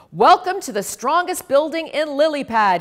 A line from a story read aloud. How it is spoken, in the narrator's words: he bellowed